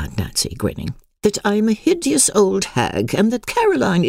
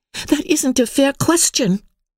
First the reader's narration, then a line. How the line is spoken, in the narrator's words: cried Emily